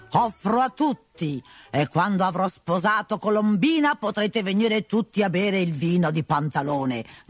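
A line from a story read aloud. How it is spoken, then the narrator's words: Shouting at the top of lungs. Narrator (Italian): gridava a squarciagola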